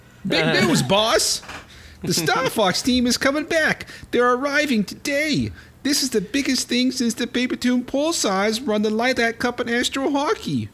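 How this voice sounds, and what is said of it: Character voice with an accent. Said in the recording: “Good accent.”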